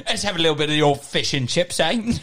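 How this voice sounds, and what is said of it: Put-on Cockney accent. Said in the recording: “what if he had a Cockney accent?”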